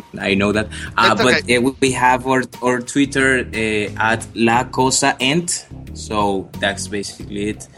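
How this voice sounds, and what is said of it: Strong non-native English accent. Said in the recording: “My English is not perfect. I have this strong accent.”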